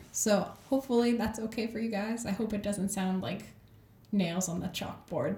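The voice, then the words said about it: Slightly sick, off-sounding voice. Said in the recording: “my voice sounds off, it's because I'm a little under the weather”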